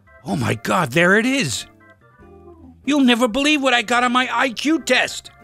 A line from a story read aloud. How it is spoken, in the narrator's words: he shouted it out